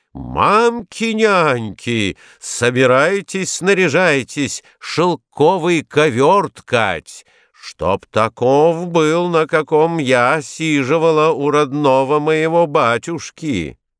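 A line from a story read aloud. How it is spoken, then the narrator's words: Loud shout. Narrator (Russian): закричала громким голосом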